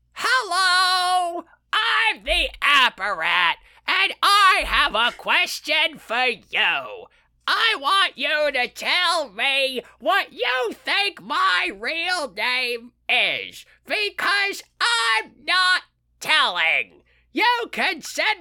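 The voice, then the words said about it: Imitates another person's voice. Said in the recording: “in your Gilbert Gottfried voice”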